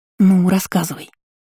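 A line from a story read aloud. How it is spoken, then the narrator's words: Conspiratorial whisper. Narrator (Russian): заговорщицки прошептала подруга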